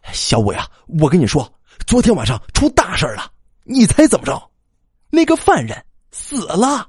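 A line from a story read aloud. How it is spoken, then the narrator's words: Breathless, over phone. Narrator (Chinese): 强尼在电话那边喘了几口气之后说道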